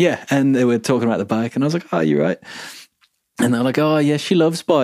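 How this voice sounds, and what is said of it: Usual voice. Nothing is said of it.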